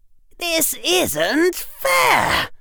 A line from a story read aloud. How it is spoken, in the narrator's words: Harry shrieked